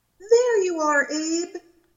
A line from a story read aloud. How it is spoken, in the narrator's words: the woman exclaimed